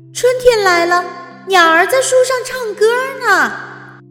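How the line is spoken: Screaming. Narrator (Chinese): 奥菲尖叫起来

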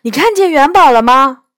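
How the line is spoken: Loud call. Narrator (Chinese): 我大声招呼道

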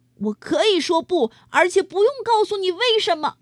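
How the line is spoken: Angry roar. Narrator (Chinese): 安迪吼道

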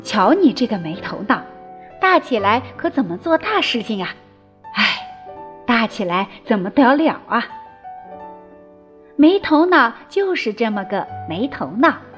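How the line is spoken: Exasperated mother sighing. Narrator (Chinese): 他妈妈不由得直叹气

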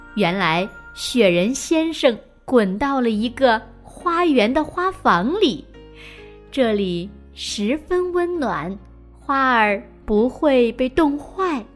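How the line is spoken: Soft reply. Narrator (Chinese): 四周的花儿们轻声的答道

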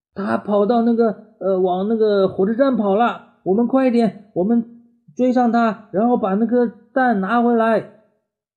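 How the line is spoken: Shouting. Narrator (Chinese): Max 喊

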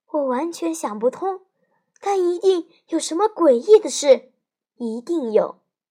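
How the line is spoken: Very quiet reply. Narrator (Chinese): 艾斯科巴老师也小小声的回答

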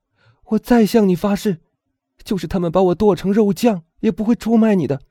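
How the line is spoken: Shout. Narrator (Chinese): 唐太斯喊道

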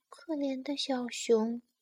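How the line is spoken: Whispering. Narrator (Chinese): 麻雀小声说

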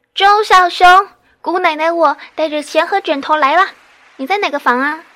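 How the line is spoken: Loud, vigorous shout. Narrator (Chinese): 他中气十足的喊着说

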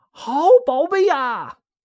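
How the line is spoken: Gleeful call. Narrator (Chinese): 孙悟空玩的高兴 … 叫一声

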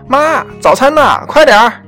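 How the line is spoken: Loud shout. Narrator (Chinese): 西蒙和帕克大声喊

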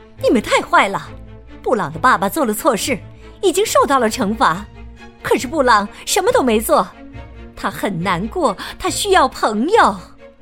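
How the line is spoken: Teacher crying out. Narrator (Chinese): 老师听见了，他叫起来

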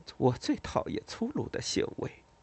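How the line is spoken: Angry mutter. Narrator (Chinese): 他很气愤的嘟囔了一句

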